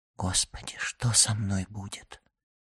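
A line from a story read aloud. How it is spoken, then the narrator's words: Whispering. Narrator (Russian): шепотом прибавила она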